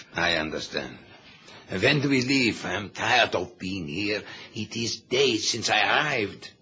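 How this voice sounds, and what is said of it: Noticeable foreign accent. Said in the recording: “We won't get a yard with your accent”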